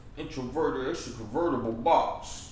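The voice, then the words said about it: Imitates another person's voice. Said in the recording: “my Kevin Gates impression”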